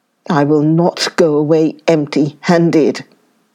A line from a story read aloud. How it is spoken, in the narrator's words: he growled